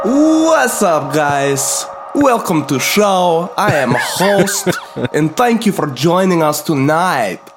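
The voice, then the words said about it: Strong put-on Eastern European accent. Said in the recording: “I like this accent. ... I feel like I am in Eastern Europe already. ... That Eastern, strong Eastern European heritage.”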